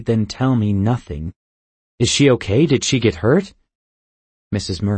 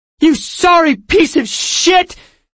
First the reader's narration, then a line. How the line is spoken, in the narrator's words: She screamed